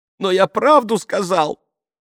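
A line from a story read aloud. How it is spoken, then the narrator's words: Sobbing. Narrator (Russian): всхлипывает Марчелло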